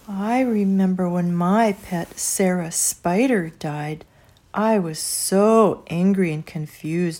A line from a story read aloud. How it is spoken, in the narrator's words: said Papa